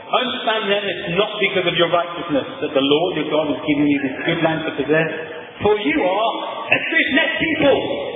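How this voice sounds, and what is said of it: Raised, louder speaking voice. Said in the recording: “So I'll raise my voice.”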